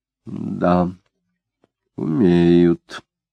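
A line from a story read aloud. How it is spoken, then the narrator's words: Slow, thoughtful. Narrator (Russian): медленно и задумчиво сказала Марина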